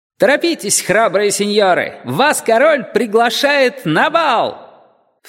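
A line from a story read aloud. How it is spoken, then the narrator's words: Cheerful shouting. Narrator (Russian): Он весело кричал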